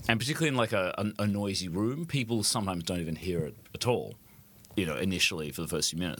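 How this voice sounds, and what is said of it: Mild hybrid Australian-British accent. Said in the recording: “I don't have the strongest Australian accent ... you'd think it would be British almost ... a genuine kind of hybrid, very mild accent”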